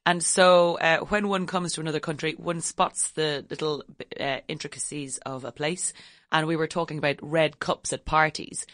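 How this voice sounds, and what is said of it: Irish accent. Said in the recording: “you have an interesting accent. You're not from California. ... I am actually Irish”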